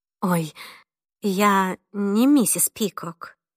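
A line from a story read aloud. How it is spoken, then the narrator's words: Gentle correction. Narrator (Russian): мягко поправила девушку Виви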